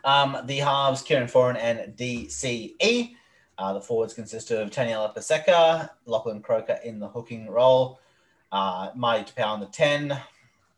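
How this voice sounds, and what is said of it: Put-on accent. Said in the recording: “Why are you putting on such an accent?”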